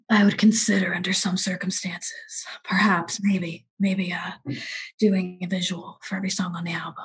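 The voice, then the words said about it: Godfather-style Marlon Brando impression. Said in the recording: “my impression of him. He sounds like Marlon Brando from The Godfather”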